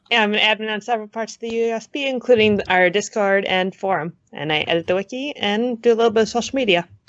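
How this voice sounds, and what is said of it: Strained, fading voice. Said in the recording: “I am losing my voice right now, apparently.”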